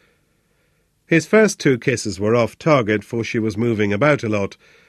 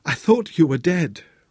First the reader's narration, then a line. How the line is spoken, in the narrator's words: Rosa gasped